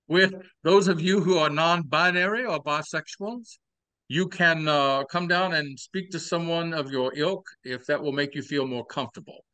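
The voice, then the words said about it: Southern accent with Cajun tinge. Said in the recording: “There's a little Cajun in that Southern accent. ... It's kind of Louisiana-based.”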